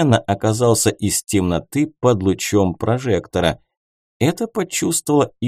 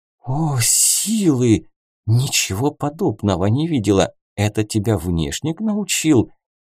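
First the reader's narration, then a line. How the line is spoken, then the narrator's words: Barely breathed out, breathless. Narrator (Russian): Еле выдохнула Туго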